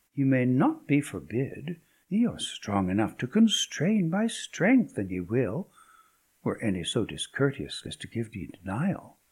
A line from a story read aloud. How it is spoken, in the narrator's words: quoth the lady merrily